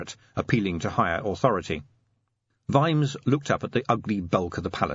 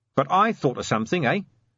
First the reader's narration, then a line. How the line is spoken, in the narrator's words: said Vimes, swaying cheerfully